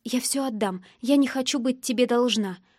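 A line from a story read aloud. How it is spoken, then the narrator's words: Whisper. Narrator (Russian): прошептала я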